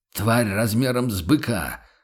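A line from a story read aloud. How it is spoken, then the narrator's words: Knight snapping back. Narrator (Russian): огрызнулся рыцарь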